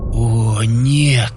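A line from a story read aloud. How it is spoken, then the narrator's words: Hoarse, shocked. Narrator (Russian): хрипло проговорил я, когда осознание происходящего и того, что должно было за этим последовать, добралось до меня сквозь первый шок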